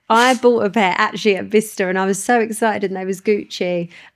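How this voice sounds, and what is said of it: Essex English accent. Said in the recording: “It's probably my Essex accent.”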